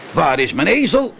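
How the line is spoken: Man calling out. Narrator (Dutch): riep de man

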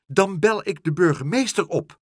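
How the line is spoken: Called out. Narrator (Dutch): riep ze

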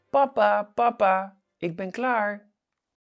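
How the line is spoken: Loud shout. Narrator (Dutch): roept hij hard door de keuken

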